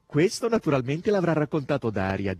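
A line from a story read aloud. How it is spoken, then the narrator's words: Plain. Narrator (Italian): disse Margherita Nikolaevna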